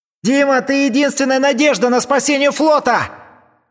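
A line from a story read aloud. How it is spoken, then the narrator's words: Shouting captain. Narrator (Russian): кричал на мостике флагмана капитан, которым был Курт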